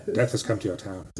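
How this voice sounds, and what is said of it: Imitates a film character's voice. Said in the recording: “That's a good Loomis.”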